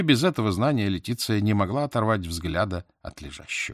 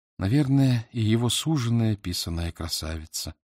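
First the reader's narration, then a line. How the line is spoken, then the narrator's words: Sad. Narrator (Russian): печально молвила она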